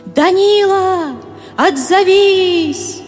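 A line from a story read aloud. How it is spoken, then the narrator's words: Shouting again. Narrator (Russian): Катя снова закричала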